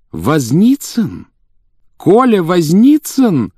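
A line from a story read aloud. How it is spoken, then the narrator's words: Joyful exclamation. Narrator (Russian): радостно воскликнула она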